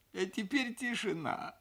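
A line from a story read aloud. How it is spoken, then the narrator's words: Tearful voice. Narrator (Russian): сказал я плачущим голосом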